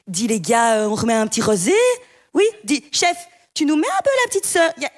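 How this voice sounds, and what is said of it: Put-on posh Belgian coastal accent. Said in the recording (French): “Il faut absolument qu'ils répètent plusieurs fois par jour, avec l'accent.”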